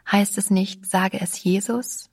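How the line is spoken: Gentle question. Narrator (German): fragte sanft

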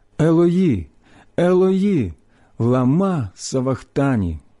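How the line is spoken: Loud strong cry. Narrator (Ukrainian): Ісус скрикнув голосом сильним

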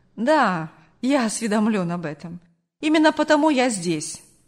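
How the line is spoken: Calm, slightly mocking retort. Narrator (Russian): спокойно и немного насмешливо парировал Сергей

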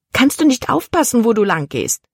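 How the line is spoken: Hissed. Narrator (German): zischte sie

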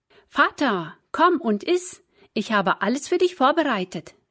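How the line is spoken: Called out. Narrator (German): rief Esau ihm zu

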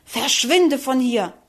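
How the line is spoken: Angry hiss. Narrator (German): fauchte wütend

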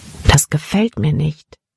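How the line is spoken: Plain. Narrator (German): sagte er

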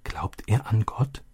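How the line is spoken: Soft question. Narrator (German): Leise fragte sie Vater

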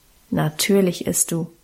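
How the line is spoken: Calm, firm decision. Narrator (German): bestimmte Guste ruhig

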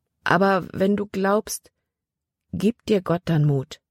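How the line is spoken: Plain. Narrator (German): fragte Libby

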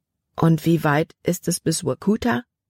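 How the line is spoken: Plain. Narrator (German): fragte Libby

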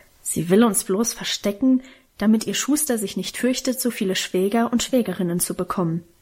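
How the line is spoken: Grumbling. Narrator (German): brummte Karl

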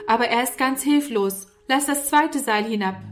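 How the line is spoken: Calling upward. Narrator (German): rief Norman herauf

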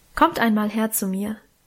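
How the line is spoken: Plain. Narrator (German): sagte Mutter

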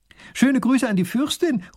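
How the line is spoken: Princess calling after. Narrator (German): ruft die Prinzessin noch hinterher

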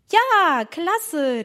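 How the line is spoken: Calling out. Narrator (German): rief Emma

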